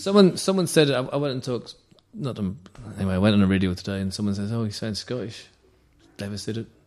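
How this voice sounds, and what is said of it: Northern Irish accent. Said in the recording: “can't even do a Belfast one ... your Irish accent's good enough, mate ... You all sound Scottish to me, all the Irish.”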